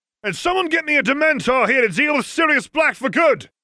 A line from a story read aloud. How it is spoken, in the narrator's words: barked